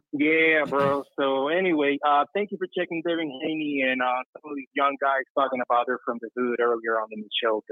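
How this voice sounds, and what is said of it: Cuban accent. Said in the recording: “I don't know if you can tell by my accent, I grew up in Cuba.”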